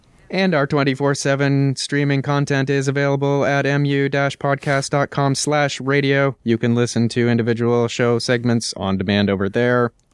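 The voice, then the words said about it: Robotic voice with weird cadence. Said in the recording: “He had a weird, like, cadence going on. It's very strange. ... doing his amazing robot voice.”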